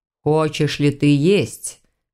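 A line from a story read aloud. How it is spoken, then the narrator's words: Grim, solemn, oath-like tone. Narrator (Russian): Тем же мрачно-торжественным тоном, будто принимал присягу, поинтересовался привратник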